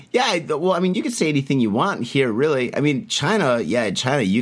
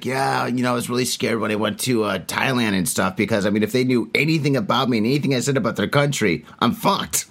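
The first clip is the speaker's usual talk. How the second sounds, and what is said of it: Imitates another person's voice. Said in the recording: “that's a pretty good Stanhope impression right there ... Like, wow, you really talk that way.”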